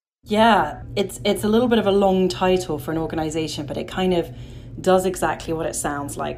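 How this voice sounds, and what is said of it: Non-American accent. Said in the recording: “which is where I come from, despite the accent”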